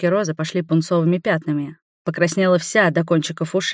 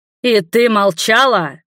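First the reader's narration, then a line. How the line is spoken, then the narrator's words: Growl. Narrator (Russian): рыкнул я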